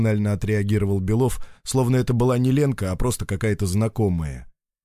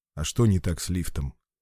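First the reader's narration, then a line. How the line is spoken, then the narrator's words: Sighing. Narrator (Russian): Лена вздохнула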